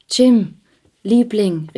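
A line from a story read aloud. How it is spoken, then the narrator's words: Calling out. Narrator (German): rief sie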